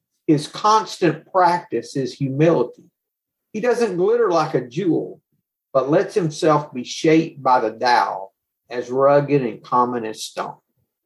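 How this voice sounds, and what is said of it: Speaks with a noticeable accent. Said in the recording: “Even with my accent”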